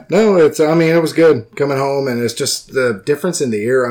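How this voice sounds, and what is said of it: Southern American accent. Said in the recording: “You've got, like, no accent. ... You sound like a nice southern boy.”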